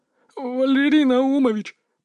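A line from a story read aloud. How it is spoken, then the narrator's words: Lackey's babble. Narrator (Russian): пролепетал шестерка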